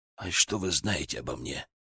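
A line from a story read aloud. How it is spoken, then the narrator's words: Muttering. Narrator (Russian): пробормотал Ковшин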